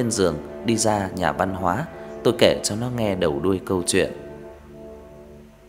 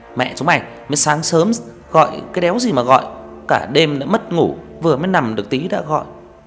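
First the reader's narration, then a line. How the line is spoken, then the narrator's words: Groggy angry shout. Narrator (Vietnamese): thằng Hợp lồm cồm bò dậy quát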